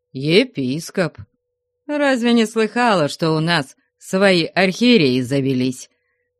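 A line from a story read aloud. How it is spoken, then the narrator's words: Plain. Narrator (Russian): сказал Потап Максимыч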